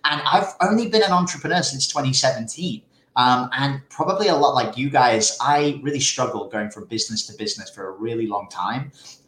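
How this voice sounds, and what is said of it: British accent with American influence. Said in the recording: “this weird accent? I used to be a British person, but after spending so much time with amazing American friends, I've kind of morphed into this too.”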